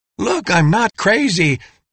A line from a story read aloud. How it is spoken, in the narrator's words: would be screaming